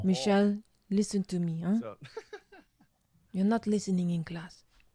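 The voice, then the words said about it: Put-on French accent, fairly good. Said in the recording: “that's pretty good. It was French, right? French accent there.”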